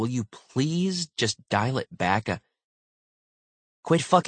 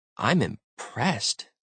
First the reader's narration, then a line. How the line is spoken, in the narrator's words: Brooks said quietly